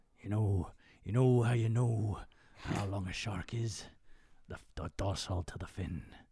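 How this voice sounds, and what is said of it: Imitates another person's voice, bit Irish. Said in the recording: “What's the accent that he's got in there? ... Oh, it's like, kind of like, bit Irish, bit fucking...”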